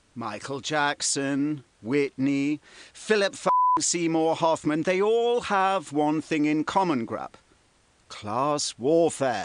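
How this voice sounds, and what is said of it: Speaks with a noticeable accent. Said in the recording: “you clearly seem to be mesmerized by his accent”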